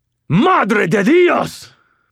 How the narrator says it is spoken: Carlos screamed

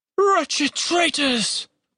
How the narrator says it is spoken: Pahelin hissed at them

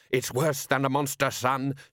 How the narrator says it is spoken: shouted Solid

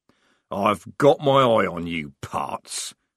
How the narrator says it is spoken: growled Strappy, temporarily defeated

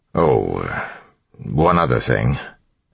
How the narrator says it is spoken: Elland said hesitantly

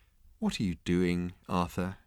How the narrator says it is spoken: he asked quietly

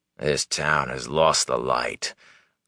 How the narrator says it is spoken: growled the man

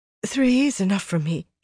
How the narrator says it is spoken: she said breathlessly

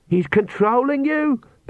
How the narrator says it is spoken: Perdita screamed

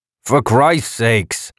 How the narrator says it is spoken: Hank Xantho said angrily

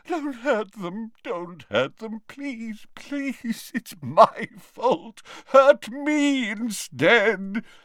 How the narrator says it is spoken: he moaned

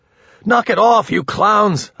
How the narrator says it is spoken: yelled

